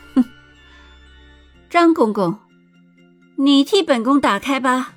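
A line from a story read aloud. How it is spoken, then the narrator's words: Cold sneer. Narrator (Chinese): 尹宁鹤眸光阴冷，嘴角浮起一个最可笑的冷笑，说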